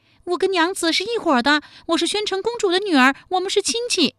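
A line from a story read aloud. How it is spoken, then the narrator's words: Quick shout. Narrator (Chinese): 巨霜机灵，当即叫道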